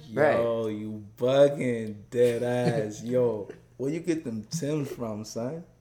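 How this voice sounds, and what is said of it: Put-on New York accent. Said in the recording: “I could probably do a New York accent.”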